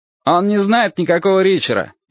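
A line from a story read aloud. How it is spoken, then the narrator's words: Shouted. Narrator (Russian): крикнул он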